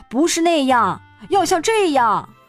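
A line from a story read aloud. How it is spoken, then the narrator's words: Loud shouting. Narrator (Chinese): 他会大声嚷嚷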